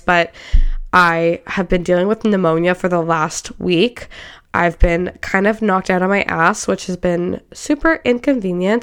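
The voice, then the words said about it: Congested, stuffy voice. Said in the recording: “I'm sound a little bit congested. I don't know if you can really hear it in my voice”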